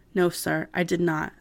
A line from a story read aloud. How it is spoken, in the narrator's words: made no reaction at all, except to reply calmly